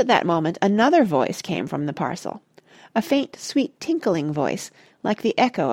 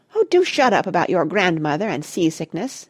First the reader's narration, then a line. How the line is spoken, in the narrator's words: it said irritably